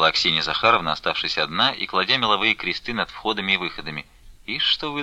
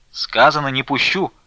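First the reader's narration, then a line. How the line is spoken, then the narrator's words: Shout. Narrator (Russian): крикнула Аксинья Захаровна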